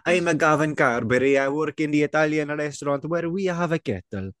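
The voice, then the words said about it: Inconsistent put-on Italian accent. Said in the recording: “The accent, man, is wild, veering all over the road. ... Like a drunk, smelly Italian.”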